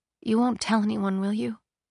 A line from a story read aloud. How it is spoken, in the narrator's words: She murmured